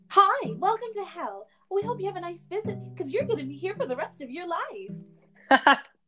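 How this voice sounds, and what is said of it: Sweet customer-service voice. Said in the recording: “You'd say it in the sweetest voice ... that's my customer service voice”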